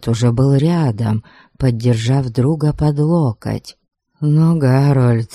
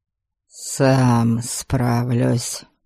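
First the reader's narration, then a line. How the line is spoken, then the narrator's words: Hoarse. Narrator (Russian): сипло произнес он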